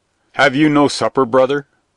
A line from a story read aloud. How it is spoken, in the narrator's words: asked the black knight curtly